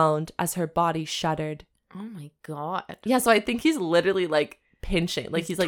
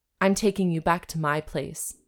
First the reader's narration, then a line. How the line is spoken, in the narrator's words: said